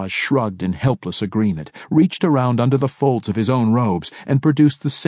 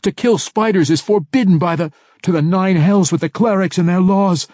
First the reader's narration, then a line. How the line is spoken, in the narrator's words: Alton shrieked back